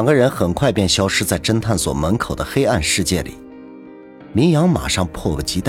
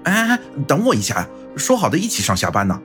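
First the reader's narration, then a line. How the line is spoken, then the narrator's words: Shouting. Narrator (Chinese): 并喊道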